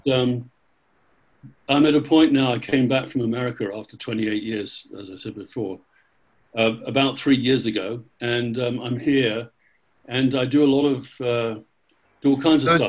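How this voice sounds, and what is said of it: English accent. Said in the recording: “it's amazing you didn't pick up any of the accent? ... I don't sound American, but I don't say 100% English ... I would have thought you were 100% English”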